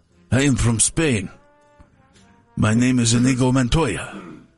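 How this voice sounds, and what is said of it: Put-on Spanish accent. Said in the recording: “That's my Spanish accent.”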